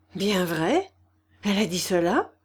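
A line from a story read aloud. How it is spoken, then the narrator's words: Trembling voice. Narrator (French): demanda-t-il d'une voix tremblante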